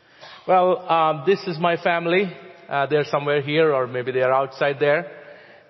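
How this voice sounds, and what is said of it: Non-native English accent. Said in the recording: “I'm not a native English speaker. You know how to forgive my accent”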